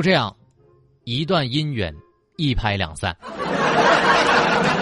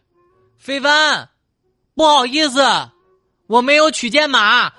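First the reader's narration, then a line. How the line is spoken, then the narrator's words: Shouting back. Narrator (Chinese): 我就对他吼了回去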